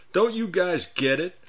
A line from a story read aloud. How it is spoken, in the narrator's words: Jimmy moaned with emotion